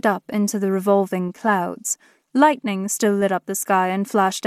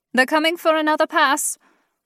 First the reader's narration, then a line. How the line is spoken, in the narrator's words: I shouted